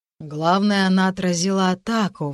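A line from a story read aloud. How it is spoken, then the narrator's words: Sighed. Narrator (Russian): вздохнул Дектон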